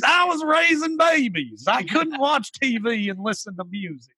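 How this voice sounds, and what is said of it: Imitated West Virginia accent. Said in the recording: “Is that the West Virginia accent? ... That's the West Virginia accent.”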